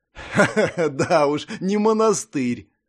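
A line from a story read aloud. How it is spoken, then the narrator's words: Pleased chuckle. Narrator (Russian): хохотнул Сэвидж, вполне довольный местом предполагаемой ночевки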